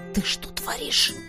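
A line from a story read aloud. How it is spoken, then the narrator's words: Hissing. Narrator (Russian): прошипел Тизар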